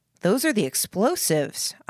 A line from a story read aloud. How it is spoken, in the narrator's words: I asked